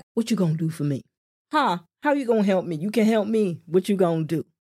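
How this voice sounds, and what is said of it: Put-on American accent. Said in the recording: “That's the only accent I know when it comes to the US.”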